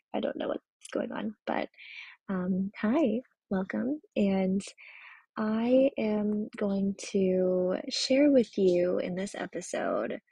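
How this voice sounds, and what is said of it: Unusually low, deep voice. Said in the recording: “does my voice sound like it lowered a couple of octaves today?”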